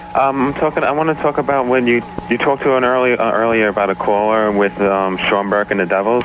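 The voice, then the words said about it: Nervous voice, strong accent. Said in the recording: “hear the nervousness in my voice and the accent. It's coming through pretty strong.”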